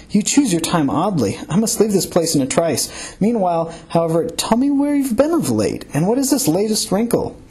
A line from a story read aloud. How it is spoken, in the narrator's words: cried